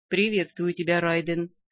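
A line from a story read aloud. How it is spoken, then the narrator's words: Even calm voice. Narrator (Russian): Ровным голосом ответил Арк-де-Актур, Тор-Артвист Шедеонел, последний из клана Вествольфтов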